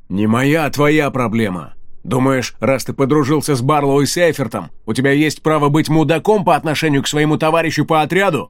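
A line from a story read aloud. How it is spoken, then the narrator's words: Defiant bark. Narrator (Russian): Вызывающе рявкнул Ридок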